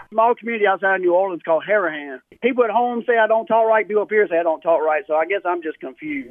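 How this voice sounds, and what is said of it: Southern twang, blended accent. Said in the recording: “Is this twang real? ... you sound kind of fake, but maybe you're that authentic ... kind of getting like a blended sound that just sounds lost as hell ... your blended accent”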